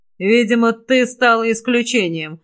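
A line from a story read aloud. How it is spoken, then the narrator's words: Hoarse rasp. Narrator (Russian): Прохрипел я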